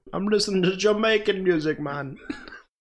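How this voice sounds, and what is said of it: Imitated Jamaican accent. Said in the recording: “he sounds Jamaican. Real Jamaican.”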